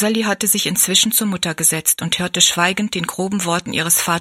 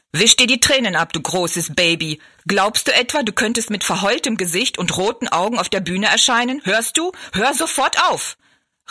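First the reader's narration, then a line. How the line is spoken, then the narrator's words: Harsh shout. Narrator (German): rief er barsch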